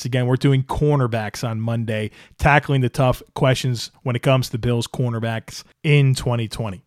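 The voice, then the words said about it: Strained, worn-out voice. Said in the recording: “my voice is struggling here. I'm kind of fighting through it here. A lot of talking this week.”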